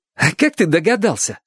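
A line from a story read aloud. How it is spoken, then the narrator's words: Joyful question. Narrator (Russian): спросил Чик радостно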